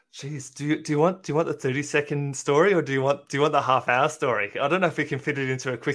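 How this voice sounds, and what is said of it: Australian accent. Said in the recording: “his lovely accent, he is in Australia”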